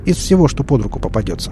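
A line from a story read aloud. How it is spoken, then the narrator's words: Plain. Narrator (Russian): ответил доктор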